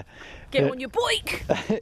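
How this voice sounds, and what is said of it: Put-on Buckinghamshire accent. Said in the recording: “It sounds like you're trying to say bike in a funny accent. ... In a Bucks accent”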